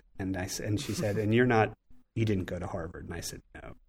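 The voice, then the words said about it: Philadelphia accent. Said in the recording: “my funny Philly accent”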